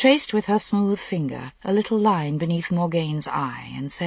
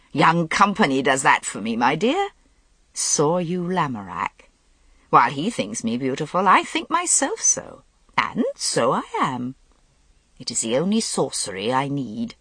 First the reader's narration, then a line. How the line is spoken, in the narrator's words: Morgause laughed gaily and said